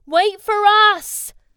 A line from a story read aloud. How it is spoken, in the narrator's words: Captain Ken called out